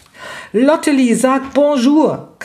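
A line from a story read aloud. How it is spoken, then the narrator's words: Shrieking. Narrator (German): kreischte Raffaela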